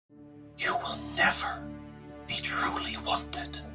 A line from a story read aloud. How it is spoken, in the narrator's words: leans in close and whispers